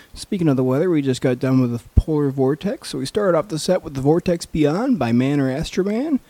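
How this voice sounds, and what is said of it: Sick, under-the-weather voice. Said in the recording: “Excuse my voice, I'm a little bit under the weather.”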